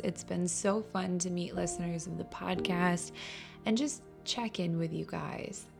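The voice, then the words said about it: Voice not yet fully recovered. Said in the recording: “I'm still not feeling completely better, so my voice isn't back yet”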